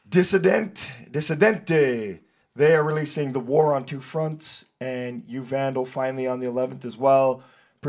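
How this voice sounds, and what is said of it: Hoarse, strained voice. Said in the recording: “If you couldn't tell, my voice is not at its best ... He's horse and course.”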